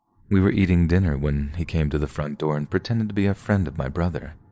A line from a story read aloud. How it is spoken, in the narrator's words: said Asha's daughter